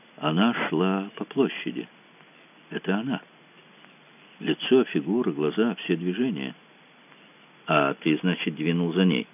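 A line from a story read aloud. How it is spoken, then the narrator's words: Quiet deep exhale. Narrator (Russian): Выдохнул тихо, глубоко, сказал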